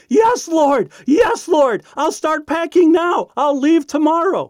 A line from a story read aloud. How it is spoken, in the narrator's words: shouting out